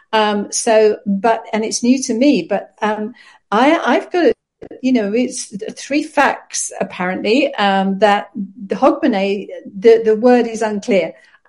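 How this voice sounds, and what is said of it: Non-Scottish accent. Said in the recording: “I'm sort of a newcomer to Scotland, because you can hear from my accent, this is not my place of birth”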